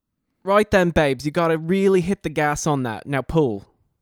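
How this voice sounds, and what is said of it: Very poor Cockney accent, Don Cheadle. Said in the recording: “A guy doing a very poor Cockney accent. Don Cheadle.”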